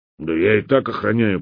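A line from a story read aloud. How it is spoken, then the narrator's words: Grumbling. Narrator (Russian): пробурчал Хохолок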